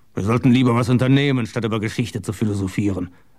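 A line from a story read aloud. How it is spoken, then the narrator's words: Grumbling. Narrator (German): brummte er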